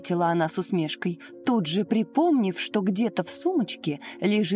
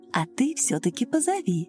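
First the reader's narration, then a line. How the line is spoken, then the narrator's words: Soft motherly repetition. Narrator (Russian): мягко так по-матерински повторила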